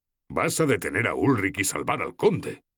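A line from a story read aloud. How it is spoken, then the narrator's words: Exclaimed. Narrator (Spanish): exclamó Ilstan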